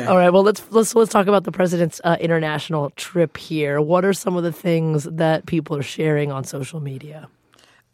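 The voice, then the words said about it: Hoarse voice. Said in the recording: “I'm a little hoarse from a cold”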